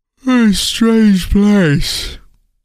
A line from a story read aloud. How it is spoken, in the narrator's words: Tim said with a yawn